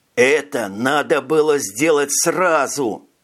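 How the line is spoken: Hissing, feeling betrayed. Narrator (Russian): прошипел Витя, почувствовавший, что его предали

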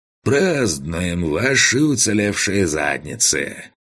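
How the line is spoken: Drunken chuckle. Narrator (Russian): Пьяно хохотнул Лысый

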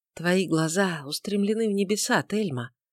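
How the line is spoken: Whisper. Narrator (Russian): прошептал он

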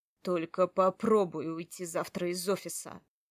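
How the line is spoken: Low warning voice. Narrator (Russian): сказал Матвей низким голосом с нотками предупреждения

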